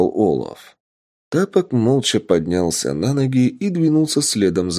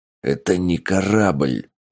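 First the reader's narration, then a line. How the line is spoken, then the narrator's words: Angry hiss. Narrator (Russian): зло прошипел Тапок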